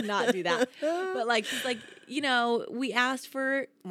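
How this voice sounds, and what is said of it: Usual voice. Nothing is said of it.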